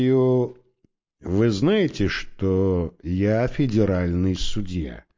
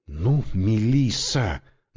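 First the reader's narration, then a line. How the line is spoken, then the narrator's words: Silent inner plea. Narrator (Russian): мысленно взмолился я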